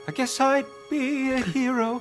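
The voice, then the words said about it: Singing in a put-on accent. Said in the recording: “Do it in accent.”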